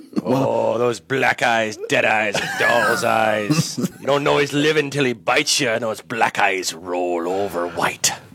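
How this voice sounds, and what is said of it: Impression of a Jaws movie character. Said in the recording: “did a couple of voices ... That's really good. I had to for a split second there. I was like, "Wait, is that the computer?"”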